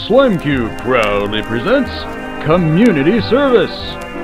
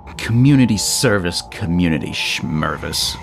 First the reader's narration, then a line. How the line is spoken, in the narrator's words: Wade grunted